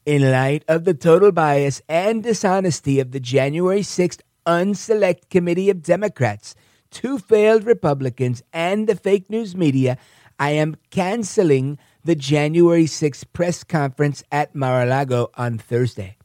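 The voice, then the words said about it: Donald Trump impression. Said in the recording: “I got to do that in my Trump voice.”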